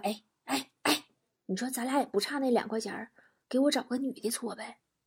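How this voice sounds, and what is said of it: Quiet, hushed aside. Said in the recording (Chinese): “同事小声说”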